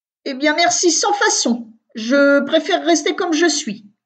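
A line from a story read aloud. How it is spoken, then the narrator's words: Snarling, surly retort. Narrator (French): réplique d'un ton hargneux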